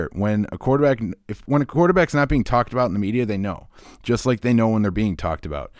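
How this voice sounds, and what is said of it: Slightly wheezy, under-the-weather voice. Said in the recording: “my voice is a little wheezy throughout it. I've been a little under the weather.”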